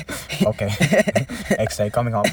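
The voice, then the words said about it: Put-on Asian accent. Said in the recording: “I don't know why I've done Asian accent”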